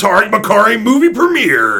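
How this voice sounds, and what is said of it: Booming monster truck announcer voice. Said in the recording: “my monster truck voice”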